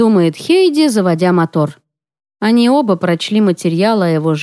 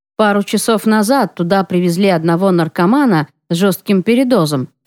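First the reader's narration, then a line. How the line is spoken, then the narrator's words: Plain. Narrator (Russian): говорит Ян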